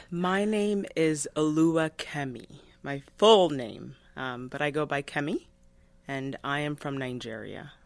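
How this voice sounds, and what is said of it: Clear Nigerian accent. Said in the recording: “you've got that beautiful, clear accent”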